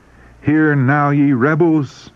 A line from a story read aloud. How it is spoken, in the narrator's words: he cried